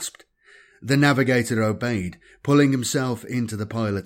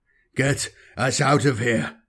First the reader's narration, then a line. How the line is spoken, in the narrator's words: Mashuma ordered in a faint, gravelly voice